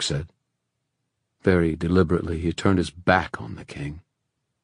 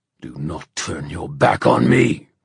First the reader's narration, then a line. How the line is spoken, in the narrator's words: the king roared